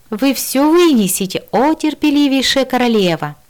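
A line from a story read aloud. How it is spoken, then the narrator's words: Cheerful shout. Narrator (Russian): весело выкрикнула я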